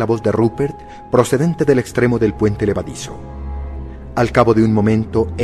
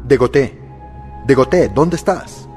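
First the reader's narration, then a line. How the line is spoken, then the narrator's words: Distant shout. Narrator (Spanish): oí gritar desde el puente levadizo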